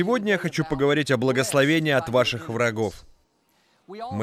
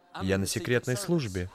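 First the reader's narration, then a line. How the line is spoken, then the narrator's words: Whispered. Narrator (Russian): Тот прошептал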